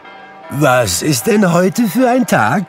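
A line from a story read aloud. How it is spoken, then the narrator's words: Calling out. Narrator (German): rief Scrooge einem Knaben in Sonntagskleidern zu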